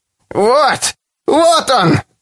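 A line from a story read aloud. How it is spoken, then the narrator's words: Shriek. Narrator (Russian): Завизжала она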